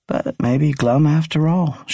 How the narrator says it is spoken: she added, conceding the point with a subdued laugh

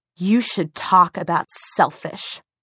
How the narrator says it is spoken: she hissed so viciously

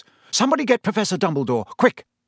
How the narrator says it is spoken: They heard Percy say in a suddenly sharp voice

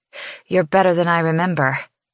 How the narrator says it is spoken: she pants

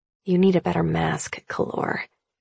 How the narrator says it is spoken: I mutter to him

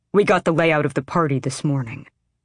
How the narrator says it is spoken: Brullo said tightly

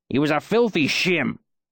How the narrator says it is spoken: Cobb spat

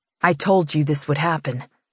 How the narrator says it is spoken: he murmurs

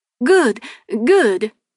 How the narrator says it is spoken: he replied cheerfully

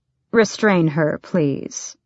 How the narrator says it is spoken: the duke said blandly, calmly, as if she were no more than a hysterical servant, as if she were nobody

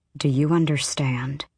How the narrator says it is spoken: Aelin said very quietly to them

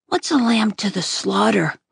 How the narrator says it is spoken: I asked sleepily

